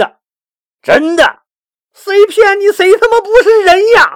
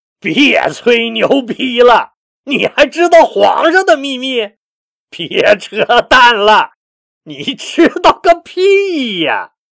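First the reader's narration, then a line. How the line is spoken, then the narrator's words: Loud mocking laughter. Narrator (Chinese): 新五贤大笑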